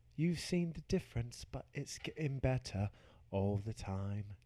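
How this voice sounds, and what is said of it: Singing in a British accent. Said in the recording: “I'll sing in a British accent.”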